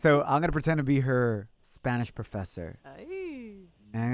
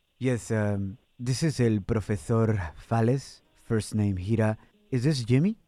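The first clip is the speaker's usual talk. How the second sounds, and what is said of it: Put-on Spanish accent. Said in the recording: “I'm going to try to do my best Spain accent”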